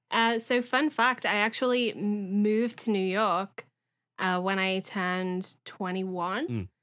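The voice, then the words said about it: Liverpool English accent. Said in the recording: “Based on your accent, you are not from the United States or originally from Canada ... as a youth in Liverpool”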